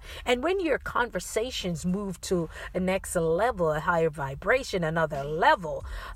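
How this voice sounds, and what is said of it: Slight Caribbean accent. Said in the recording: “You can hear a little Caribbean accent.”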